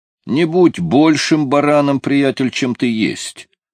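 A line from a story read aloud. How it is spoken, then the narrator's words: Plain. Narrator (Russian): сказал Томми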